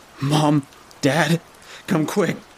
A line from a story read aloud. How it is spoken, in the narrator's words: cried out